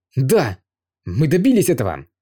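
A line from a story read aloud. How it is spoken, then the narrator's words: Excited. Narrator (Russian): взволнованно сказал Юэ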